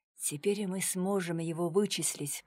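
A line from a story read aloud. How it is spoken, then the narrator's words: Low whisper. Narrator (Russian): понизив голос, прошептал Дронго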